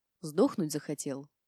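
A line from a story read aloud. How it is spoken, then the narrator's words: Soft whisper. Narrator (Russian): тихонько прошептала я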